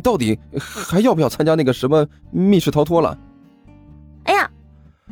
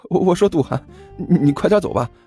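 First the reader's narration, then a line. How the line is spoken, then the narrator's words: Nervous forced laugh. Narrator (Chinese): 甘球擦着额头上的冷汗，干笑着说道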